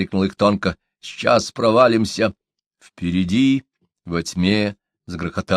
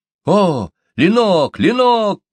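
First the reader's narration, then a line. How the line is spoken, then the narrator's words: Thin exclamation. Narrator (Russian): воскликнул их тонко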